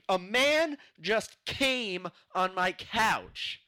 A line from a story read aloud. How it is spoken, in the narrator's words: Andre shouting